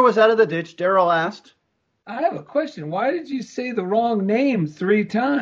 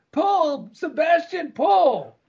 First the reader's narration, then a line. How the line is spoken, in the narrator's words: Jane gave a whistle and hollered